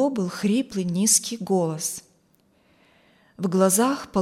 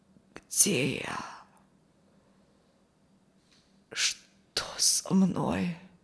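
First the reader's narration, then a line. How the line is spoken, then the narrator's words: Creaky rasp. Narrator (Russian): проскрипел Алексей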